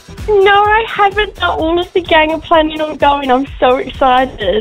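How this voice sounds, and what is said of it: English-sounding accent. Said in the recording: “I spot an accent. Are you English? ... so you picked it up”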